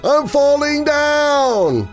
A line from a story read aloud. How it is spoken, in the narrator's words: The voice shouted again